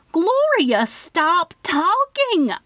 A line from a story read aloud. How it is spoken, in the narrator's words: I screamed into the phone